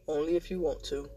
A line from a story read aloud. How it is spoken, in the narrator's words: Nick says with a sigh